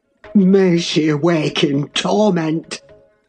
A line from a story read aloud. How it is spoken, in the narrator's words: he cried with frightful vehemence, groaning in a sudden paroxysm of ungovernable passion